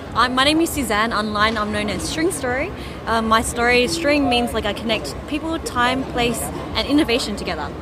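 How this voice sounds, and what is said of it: Australian accent. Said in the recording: “I'm from Australia... can you tell Susie. By my accent?”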